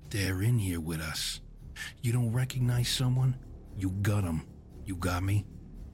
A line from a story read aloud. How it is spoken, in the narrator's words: whispering